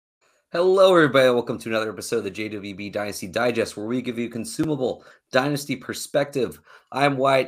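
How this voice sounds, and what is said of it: Worn-out, strained voice. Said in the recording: “excuse my voice ... It's a little worn out”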